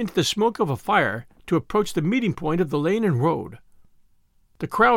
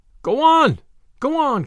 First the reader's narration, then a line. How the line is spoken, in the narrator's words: cried the voices